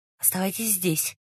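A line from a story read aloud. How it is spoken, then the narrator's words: Whisper. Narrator (Russian): шепнул Раст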